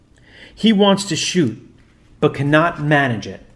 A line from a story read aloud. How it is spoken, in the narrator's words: he cried